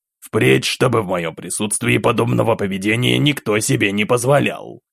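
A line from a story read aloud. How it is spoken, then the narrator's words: Harsh, curt tone. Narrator (Russian): Все еще жестким тоном бросил император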